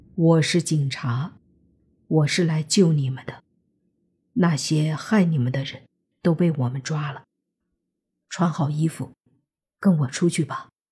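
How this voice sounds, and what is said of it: Gentle, soft voice. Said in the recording (Chinese): “用尽量温和的声音说 ... 莫凡的声音很温和，他怕自己哪怕大声一点都会给他们带来刺激和恐惧”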